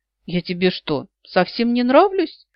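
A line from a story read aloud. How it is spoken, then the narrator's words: Slightly hurt question. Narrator (Russian): Слегка обиженно спросил он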